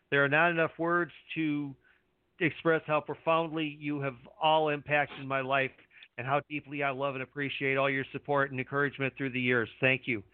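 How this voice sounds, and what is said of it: Emotional, choked-up reading voice. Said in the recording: “I'm actually getting a little emotional reading that”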